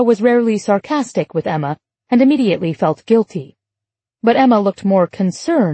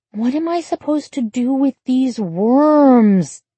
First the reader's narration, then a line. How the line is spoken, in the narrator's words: she said with a labored sigh